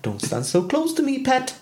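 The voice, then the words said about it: Singing in a put-on Geordie accent. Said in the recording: “you do the lyrics, but in a Geordie accent”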